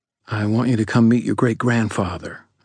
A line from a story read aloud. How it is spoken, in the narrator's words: I said quietly